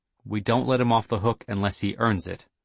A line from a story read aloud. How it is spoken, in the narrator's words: the president said coldly